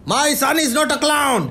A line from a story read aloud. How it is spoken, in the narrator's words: he shouted out the window